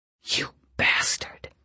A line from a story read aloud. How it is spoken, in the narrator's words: she whispered